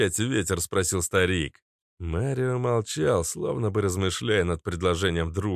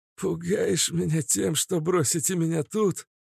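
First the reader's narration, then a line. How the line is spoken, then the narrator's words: Hoarse laugh. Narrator (Russian): сипло рассмеялся Каша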